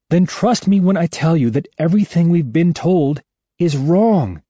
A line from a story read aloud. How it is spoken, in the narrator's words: I say desperately